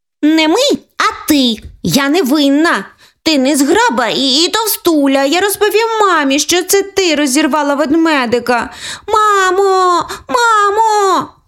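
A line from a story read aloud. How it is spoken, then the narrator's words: Girl shouting. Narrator (Ukrainian): закричала Оленка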